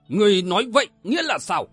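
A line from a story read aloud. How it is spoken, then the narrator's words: Angry shouted question. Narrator (Vietnamese): không nhịn được quát hỏi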